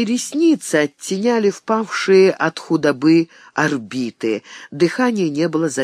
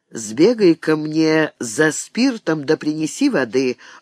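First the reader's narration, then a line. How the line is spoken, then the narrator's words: Calm, steady voice. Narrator (Russian): ровным голосом, в котором не слышалось ни смущения, ни тревоги, обратилась мать Досифея к Серафиме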